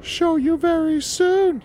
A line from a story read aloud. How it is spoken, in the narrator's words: he squeaked